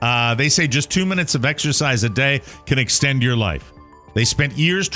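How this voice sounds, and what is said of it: Usual voice. Nothing is said of it.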